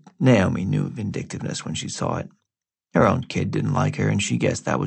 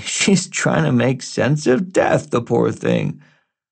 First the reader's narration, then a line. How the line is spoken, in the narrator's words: Everybody would wince and laugh and say